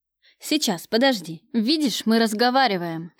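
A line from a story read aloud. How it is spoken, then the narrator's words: Heated bark. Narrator (Russian): рявкнул на нее разгоряченный Кравцов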